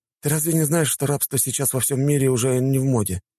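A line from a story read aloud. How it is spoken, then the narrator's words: Sighing. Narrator (Russian): вздохнул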